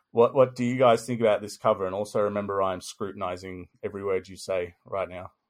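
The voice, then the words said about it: Voice giving out, hoarse. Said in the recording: “I'm losing my voice.”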